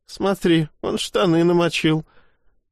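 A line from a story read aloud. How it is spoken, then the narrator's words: Laughing. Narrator (Russian): рассмеялась Маша Левченко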